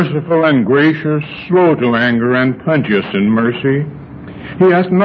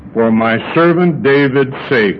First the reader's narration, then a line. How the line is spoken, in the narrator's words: he said